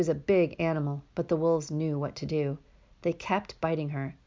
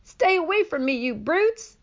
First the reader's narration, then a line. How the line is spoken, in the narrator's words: Annabelle kicked and hollered